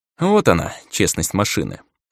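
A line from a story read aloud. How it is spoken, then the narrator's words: Dry smirking snort. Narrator (Russian): хмыкнул я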